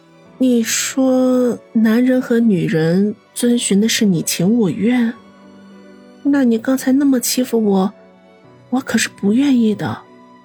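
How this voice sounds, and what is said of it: Soft, quiet voice. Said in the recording (Chinese): “嘴唇轻轻地抿在一起，小声地说道”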